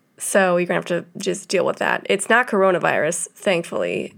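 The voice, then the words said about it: Rough, deep sick-sounding voice. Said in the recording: “I've been sick, so I got that sexy old man voice happening. Very Phoebe Buffay of me. I will not be singing for you.”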